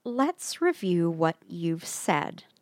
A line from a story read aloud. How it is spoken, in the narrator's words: Lucy said slowly, articulately